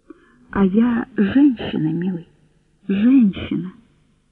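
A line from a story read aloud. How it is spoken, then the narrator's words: Simple, calm. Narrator (Russian): Она сказала это просто и спокойно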